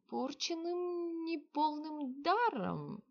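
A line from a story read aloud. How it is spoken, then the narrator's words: Uncertain young man. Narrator (Russian): неуверенно ответил юноша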